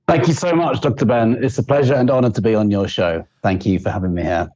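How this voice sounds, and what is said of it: Noticeable, appealing foreign accent. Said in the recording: “he has a great accent, so everybody's going to love listening to ... today because he's got a sexy accent.”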